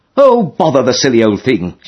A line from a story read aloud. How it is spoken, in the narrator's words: she would say indignantly when the sail would not go up properly